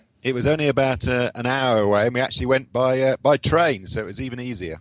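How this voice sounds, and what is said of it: British accent. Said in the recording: “from your accent, I can tell that you live in the UK”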